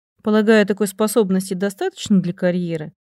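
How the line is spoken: Perfectly calm reply. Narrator (Russian): совершенно спокойным голосом отвечала

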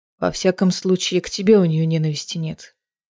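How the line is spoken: Quiet. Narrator (Russian): тихо сказал он

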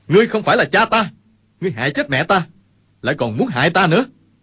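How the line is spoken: Angry shout. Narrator (Vietnamese): Dương Khang quát

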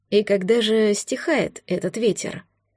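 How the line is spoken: Quiet intimate question. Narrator (Russian): Тихо спросил император, словно они были в комнате лишь вдвоем

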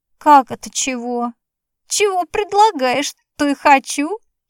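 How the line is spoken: Old man giggling. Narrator (Russian): хихикнул старец

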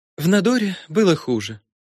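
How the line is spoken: Wistful sigh. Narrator (Russian): Селина вздохнула, видимо, что-то вспомнив

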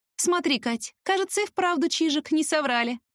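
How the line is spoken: Laughing. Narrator (Russian): рассмеялась

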